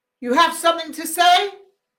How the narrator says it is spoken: shouted

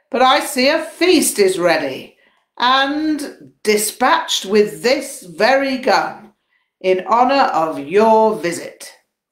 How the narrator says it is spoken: he yelled

